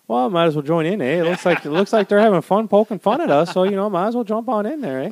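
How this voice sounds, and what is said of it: Stereotypical Canadian accent impression. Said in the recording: “when I do a Canadian accent ... it's clearly an impression of a stereotypical Canadian”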